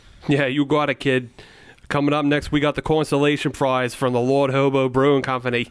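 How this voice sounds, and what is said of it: Thick put-on Boston accent. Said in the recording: “That's quite the accent you got going on there. It's very thick. ... Yeah, very thick accent. ... And now you're not giving up the Boston accent.”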